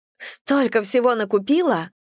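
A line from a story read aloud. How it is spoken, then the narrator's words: Exclaiming. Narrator (Russian): воскликнула она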